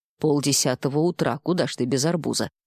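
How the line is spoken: Grumbling inner voice. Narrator (Russian): забурчало подсознание

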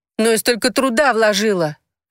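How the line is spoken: Wailing. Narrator (Russian): взвыла Розара

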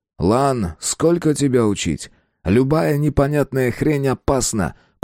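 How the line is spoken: Through gritted teeth. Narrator (Russian): процедил сквозь зубы наставник

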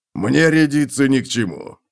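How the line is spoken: Dwarf's snort. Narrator (Russian): фыркнул гном

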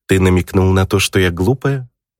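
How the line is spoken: Cold, warning, near-threatening. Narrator (Russian): Теперь в ее голосе не было щебетания и мурлыканья, а сквозили холод и предупреждение на грани угрозы

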